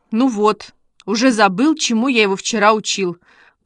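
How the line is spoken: Grumbled. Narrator (Russian): проворчал Костя

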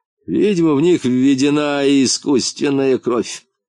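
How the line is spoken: Mocking bald man. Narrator (Russian): насмешливо произнес лысый

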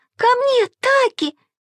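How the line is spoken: Shrieking. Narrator (Russian): визжала Маша

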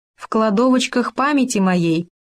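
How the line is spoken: Plain. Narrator (Russian): ответил Хома

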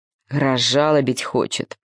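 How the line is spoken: Grumbling. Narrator (Russian): пробурчал осел

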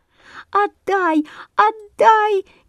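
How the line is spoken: Frantic sparrow squeaking. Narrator (Russian): неистово пищали воробьи, летая над вороньим гнездом

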